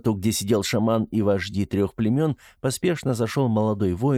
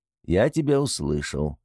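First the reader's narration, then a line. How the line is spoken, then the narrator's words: Calm reply. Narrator (Russian): спокойно ответил Гросвар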